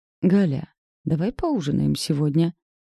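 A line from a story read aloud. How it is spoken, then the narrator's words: Ingratiating suggestion. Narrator (Russian): вкрадчивым тоном предложил Назар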